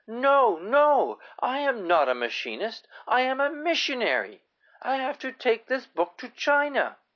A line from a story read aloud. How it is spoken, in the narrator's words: she suddenly shouted